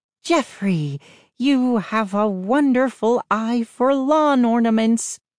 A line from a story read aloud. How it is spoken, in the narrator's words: exclaimed